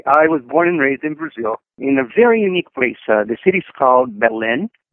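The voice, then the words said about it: Brazilian-accented English. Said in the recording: “that beautiful accent of yours”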